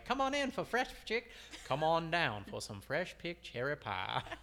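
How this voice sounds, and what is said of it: Bad put-on Southern accent. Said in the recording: “our bad Southern accents”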